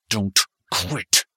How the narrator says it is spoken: Clyde uttered through clenched teeth

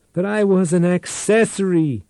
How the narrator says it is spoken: Tate shouted

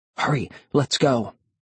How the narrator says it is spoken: I whispered

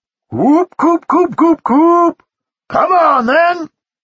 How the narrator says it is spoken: shouted Farmer Tubbs, the sounds he always made to call cows or sheep or chickens

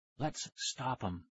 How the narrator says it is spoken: Tara whispered

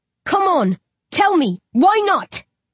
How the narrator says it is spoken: I roar

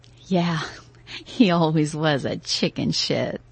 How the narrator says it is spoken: I said, laughing

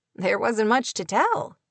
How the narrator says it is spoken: Clay said with a short laugh

